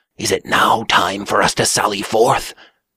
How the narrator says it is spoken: he whispered

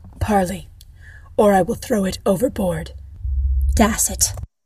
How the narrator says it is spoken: taking a deep breath, whispered

